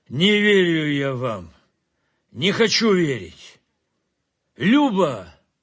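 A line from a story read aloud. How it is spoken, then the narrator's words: Loud call. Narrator (Russian): Громко позвал он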